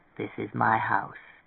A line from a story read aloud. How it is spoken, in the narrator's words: Tweeny murmured